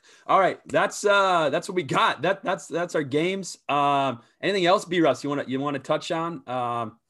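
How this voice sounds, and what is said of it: Hoarse, mostly lost voice. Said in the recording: “I lost my voice... lose our voice.”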